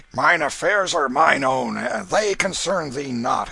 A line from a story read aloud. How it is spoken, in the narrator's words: answered Canty roughly